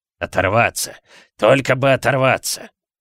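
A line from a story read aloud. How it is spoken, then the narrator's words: Muttered under breath. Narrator (Russian): бормотал он себе под нос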